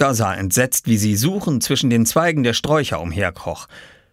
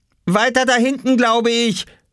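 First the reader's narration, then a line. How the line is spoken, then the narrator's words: Calling out. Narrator (German): rief er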